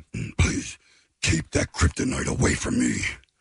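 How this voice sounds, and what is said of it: Batman impression sounding like Cookie Monster. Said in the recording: “your Batman impression ... it's Batman. It's Batman ... You sound like Cookie Monster ... It sounds like it hurts when you do that.”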